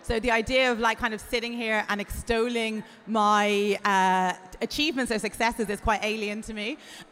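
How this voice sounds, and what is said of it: Irish accent. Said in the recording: “I come from Ireland, as you can probably hear from my accent”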